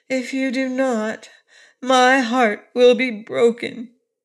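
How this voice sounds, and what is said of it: Sorrowful voice. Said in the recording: “in a sorrowful voice.”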